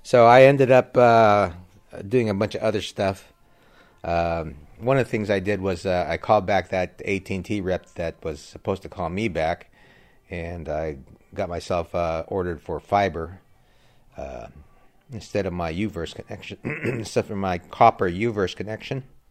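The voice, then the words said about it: Strained, failing voice. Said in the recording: “Ooh, my voice is going.”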